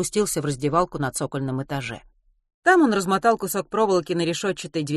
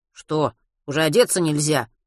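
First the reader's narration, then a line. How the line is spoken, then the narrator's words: Snapped. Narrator (Russian): огрызнулся Матвей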